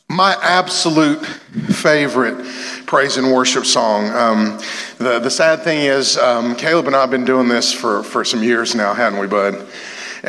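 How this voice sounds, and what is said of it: Hoarse, strained voice. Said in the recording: “I probably lost my voice on that last song”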